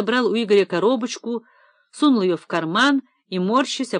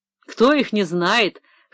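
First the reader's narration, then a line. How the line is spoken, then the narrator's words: Pleased chuckle. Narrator (Russian): хохотнул довольный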